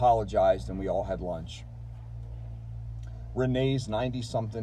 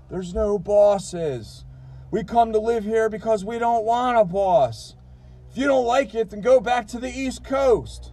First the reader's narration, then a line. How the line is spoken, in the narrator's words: he yelled